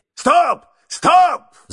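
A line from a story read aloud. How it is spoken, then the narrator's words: Sudden shout. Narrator (Russian): закричал вдруг мистер Адамс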